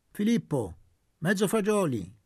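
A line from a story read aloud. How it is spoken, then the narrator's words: Peremptory tone. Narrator (Italian): detto con tono perentorio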